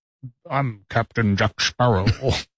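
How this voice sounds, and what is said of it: Scottish-accented movie star impression. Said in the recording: “Why do you sound like you're doing a Sean Connery impersonation?”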